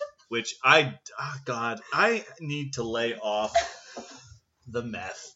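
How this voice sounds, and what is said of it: Usual voice. Nothing is said of it.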